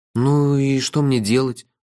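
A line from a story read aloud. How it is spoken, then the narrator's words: Asked plaintively. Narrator (Russian): жалобно спросил я уже в который раз за этот длинный день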